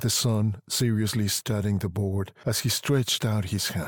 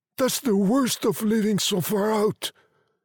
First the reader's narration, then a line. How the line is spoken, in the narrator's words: cried Mr